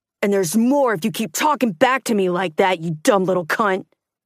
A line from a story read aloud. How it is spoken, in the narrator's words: he shouted